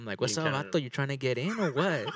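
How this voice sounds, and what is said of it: Put-on Mexican accent. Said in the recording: “since I'm Mexican, I can do a Mexican accent ... if you encountered a character, I know like, a Mexican, I can do a Mexican accent.”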